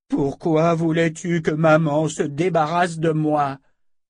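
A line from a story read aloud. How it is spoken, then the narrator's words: Pathetic moaning. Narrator (French): La magicienne émit une série de gémissements pathétiques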